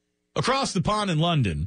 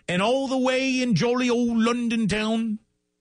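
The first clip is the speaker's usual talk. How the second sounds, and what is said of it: Terrible put-on London accent. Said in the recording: “It was a terrible London accent.”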